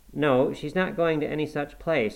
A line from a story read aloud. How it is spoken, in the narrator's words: I cried